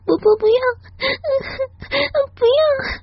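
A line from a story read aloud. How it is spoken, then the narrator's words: Crying pleading. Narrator (Chinese): 我哭着求他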